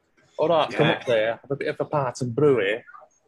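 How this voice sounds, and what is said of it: Put-on northern English accent. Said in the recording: “East Midlands English or Lancashire English ... up north. I always try to do a bit of the accent when I can.”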